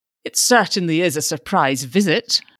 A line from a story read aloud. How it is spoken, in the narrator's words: the judge said dryly